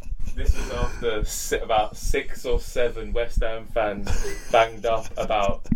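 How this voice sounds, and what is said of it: Usual voice. Nothing is said of it.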